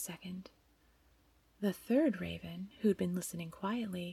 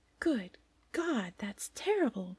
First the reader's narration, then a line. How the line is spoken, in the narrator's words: cried the first raven